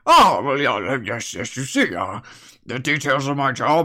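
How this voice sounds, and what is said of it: Semi-English, rattly character voice. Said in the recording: “his voice is semi-English and semi-rattly”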